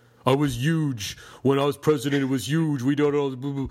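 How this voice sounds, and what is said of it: Bad imitation of another person's voice. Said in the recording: “I have a bad Trump impersonation”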